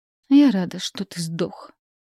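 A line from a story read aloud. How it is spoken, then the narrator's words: Spoken through clenched teeth. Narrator (Russian): процедила сквозь зубы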